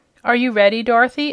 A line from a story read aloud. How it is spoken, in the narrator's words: asked the ruler